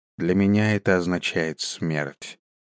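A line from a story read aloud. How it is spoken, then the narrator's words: Quiet. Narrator (Russian): тихо произнес он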